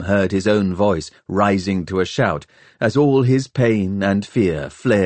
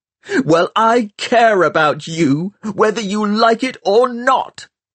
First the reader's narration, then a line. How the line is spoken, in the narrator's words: Tom screamed